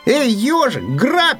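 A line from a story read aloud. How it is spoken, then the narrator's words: Hare shouts. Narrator (Russian): крикнул заяц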